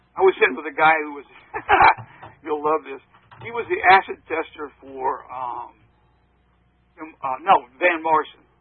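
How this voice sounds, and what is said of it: Slight Southern US accent. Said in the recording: “I'm from the South, as you can tell by a little bit of my accent.”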